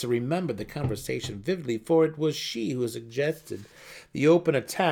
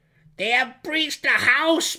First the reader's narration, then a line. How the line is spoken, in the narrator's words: Brisa cried, assuming the worst